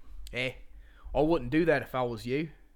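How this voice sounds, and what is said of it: Attempted Australian accent. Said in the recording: “I can do a pretty good Australian accent ... that wasn't close”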